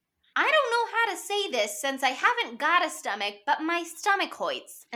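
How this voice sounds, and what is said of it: Fats's funny little accent. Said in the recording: “he says hoits because he talks like that the whole movie. He's got this funny little accent where he's like, my stomach hoits”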